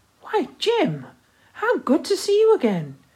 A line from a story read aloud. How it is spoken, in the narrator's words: exclaimed